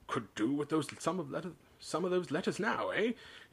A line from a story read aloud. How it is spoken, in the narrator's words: he said cheerfully